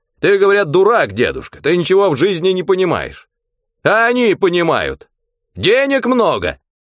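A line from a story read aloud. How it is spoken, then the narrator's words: Old man shouting. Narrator (Russian): Дед уже кричал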